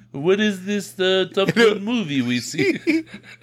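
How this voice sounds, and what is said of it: Attempted French accent sounding Russian. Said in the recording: “Pretend you're French. Talk English. ... That's Russian, man. That's not French.”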